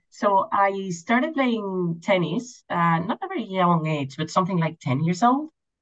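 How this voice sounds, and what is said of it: Slight Spanish accent. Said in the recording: “you come with a little accent, probably happened in Spain.”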